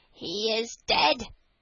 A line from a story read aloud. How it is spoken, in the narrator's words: said the magpie, with a croak